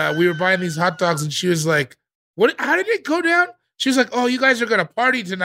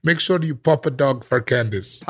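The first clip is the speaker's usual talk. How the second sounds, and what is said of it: Soft, thick Filipino old-lady accent. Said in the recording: “very thick Filipino accent, old lady ... She said it like soft”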